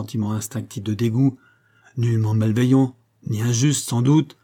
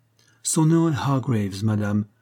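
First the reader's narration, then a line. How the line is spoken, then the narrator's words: Plain. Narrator (French): répondit l'entraîneur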